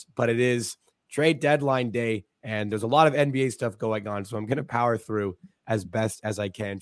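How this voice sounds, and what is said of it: Hoarse, fading voice. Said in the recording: “As you can tell, I'm losing my voice”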